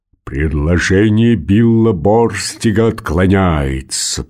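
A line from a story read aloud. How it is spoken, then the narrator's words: Roaring lion. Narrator (Russian): проревел лев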